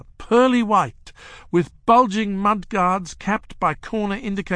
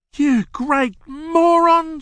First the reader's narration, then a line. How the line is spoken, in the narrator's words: she cried